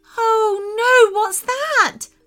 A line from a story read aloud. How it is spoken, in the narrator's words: screamed Sophia